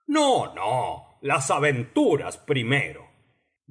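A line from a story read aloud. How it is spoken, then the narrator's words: Impatient griffin. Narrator (Spanish): dijo el grifo con tono impaciente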